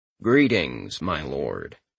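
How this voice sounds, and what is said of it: Flat deadpan character voice. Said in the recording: “he said in his deadpan voice.”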